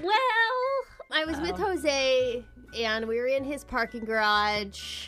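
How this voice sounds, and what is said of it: Talking in a weird voice. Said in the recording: “talking in this weird voice”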